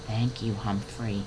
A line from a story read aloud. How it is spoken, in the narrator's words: Brisbane turned to me quietly and said